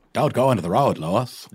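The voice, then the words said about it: Put-on Maine accent. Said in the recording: “the Pet Cemetery Maine accent”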